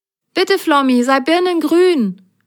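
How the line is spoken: Call. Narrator (German): rief Grasgrün

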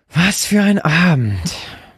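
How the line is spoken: Groaning summary. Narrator (German): fasste sie noch einmal stöhnend zusammen

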